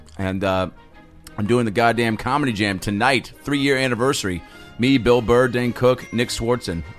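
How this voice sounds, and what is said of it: Hoarse, strained sore-throat voice. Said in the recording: “my voice sounds weird ... I got some lozenges in. I'm trying to rest this voice. My throat's a little fucked up.”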